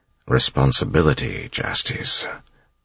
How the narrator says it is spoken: Elend said quietly

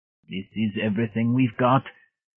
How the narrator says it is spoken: he gasped

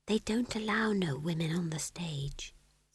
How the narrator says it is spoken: said McGrat in a small voice

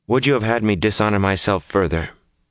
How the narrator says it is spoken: Her voice was level enough

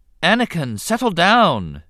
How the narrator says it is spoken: his mother said sharply

